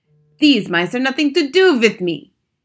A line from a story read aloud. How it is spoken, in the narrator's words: shouted